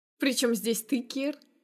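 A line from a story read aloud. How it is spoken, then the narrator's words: Chuckling. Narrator (Russian): Хохотнув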